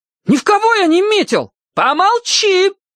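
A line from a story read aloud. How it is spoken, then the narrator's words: Shrieked. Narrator (Russian): опять взвизгнула мама Эмма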